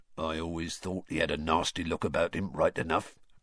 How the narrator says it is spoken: grunted a man at the bar

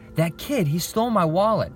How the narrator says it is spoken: exclaimed David

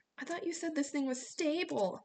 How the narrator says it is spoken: Jason shouted over the wind

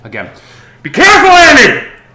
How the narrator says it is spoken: He yells

